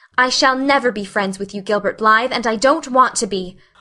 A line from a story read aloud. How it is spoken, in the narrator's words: she said coldly